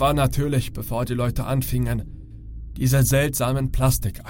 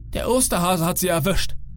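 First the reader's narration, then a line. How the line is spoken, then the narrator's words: Calling out. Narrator (German): ich rief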